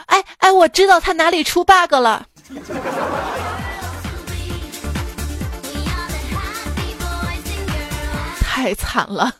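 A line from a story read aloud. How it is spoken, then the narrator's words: Excited shout. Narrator (Chinese): 程序员兴奋地喊道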